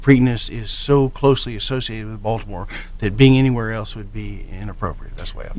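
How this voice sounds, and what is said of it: East Texas twang. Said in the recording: “I'm actually a native of East Texas, so I still have my twang”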